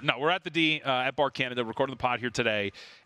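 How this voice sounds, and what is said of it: Worn-out, strained voice. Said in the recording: “My voice is toast. ... You did a whole 2 hours.”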